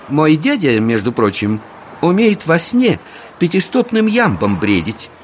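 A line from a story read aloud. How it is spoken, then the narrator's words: Lady exclaiming. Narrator (Russian): воскликнула леди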